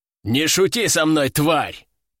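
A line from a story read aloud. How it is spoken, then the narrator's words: Angry growl. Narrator (Russian): прорычал мужчина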